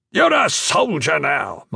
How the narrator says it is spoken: Master Sergeant Delelo shouted

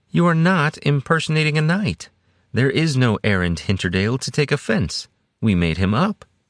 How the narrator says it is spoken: Soria said cheerfully, smiling up at Brennus

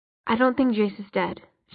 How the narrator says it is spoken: she said finally

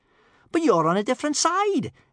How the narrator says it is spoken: exclaimed Kamikaze in surprise

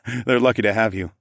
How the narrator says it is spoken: I laughed

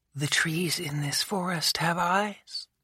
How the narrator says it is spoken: she whispered

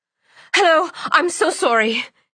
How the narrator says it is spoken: Cianni blurted

